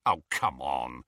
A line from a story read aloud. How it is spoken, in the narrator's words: scoffed Ron